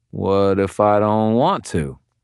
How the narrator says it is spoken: I drawled

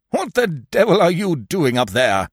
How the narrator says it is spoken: Pantaloon replied in a bellow

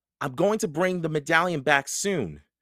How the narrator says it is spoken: Jack said loudly

